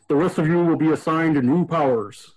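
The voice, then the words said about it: Imitates a villain character's voice. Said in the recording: “do my best Zoran voice.”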